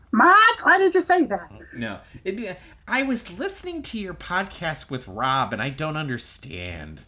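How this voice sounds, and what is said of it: Imitates another person's voice. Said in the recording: “That's a terrible impression of my mom. It's not even my best work.”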